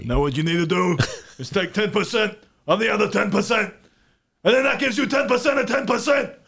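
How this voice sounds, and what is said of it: Imitates another person's voice. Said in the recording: “Now with the master, the maestro, do Bernie. ... Bernie Sanders.”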